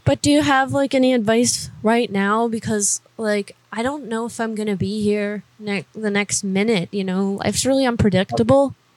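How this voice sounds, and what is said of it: Emotional, upset voice. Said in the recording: “I'm just a little emotional.”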